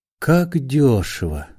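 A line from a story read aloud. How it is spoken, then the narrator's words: Whispered. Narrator (Russian): шепнул Остап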